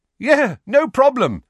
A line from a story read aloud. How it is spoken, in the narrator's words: said Harry, still in the horribly hearty voice that did not belong to him